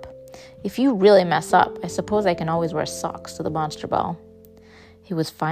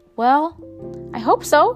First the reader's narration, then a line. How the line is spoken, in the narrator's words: I said cheerfully